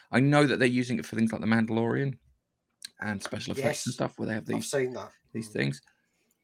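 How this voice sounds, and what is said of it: Strained, failing voice. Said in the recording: “my voice is still going ... I can't explain very well because of my voice”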